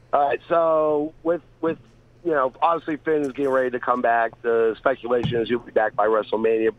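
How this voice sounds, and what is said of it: Congested voice from a cold. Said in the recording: “I have a cold, so I'm on some cold medicine”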